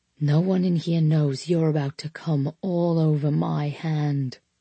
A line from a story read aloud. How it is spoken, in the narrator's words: Max murmured